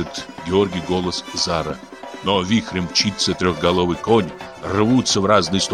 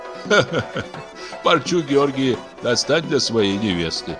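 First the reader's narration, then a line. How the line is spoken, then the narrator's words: Laughing. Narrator (Russian): засмеялась Зара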